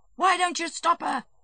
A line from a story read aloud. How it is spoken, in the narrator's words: shouted Stepan Arkadyevitch